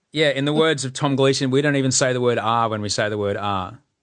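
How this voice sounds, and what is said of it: Queensland Australian accent with twang. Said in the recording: “it just went full Queensland ... I can hear that twang now ... I do turn it on”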